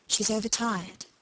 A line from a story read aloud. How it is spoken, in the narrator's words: Margaret whispered